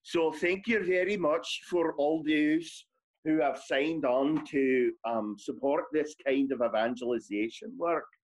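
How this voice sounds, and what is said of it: Put-on Scottish accent. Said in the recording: “Accent time. You got to do accent. ... I guess I'll go with Scottish.”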